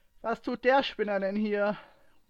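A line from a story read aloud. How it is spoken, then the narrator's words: Louder-than-intended shout. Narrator (German): rief Ray lauter, als es geplant war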